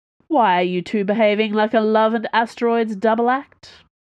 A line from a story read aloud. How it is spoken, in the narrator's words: Porthos broke first, laughing uproariously